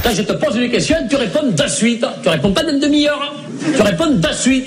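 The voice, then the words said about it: Put-on southern French accent. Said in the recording (French): “quand Chevalier et Las Palas prennent l'accent du Sud”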